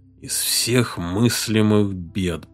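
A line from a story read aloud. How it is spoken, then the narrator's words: Muttering. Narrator (Russian): пробормотал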